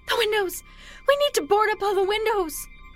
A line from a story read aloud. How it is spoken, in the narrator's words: His wife shrieks